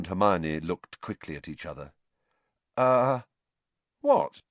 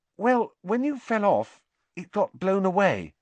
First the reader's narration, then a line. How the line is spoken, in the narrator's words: said Hermione hesitantly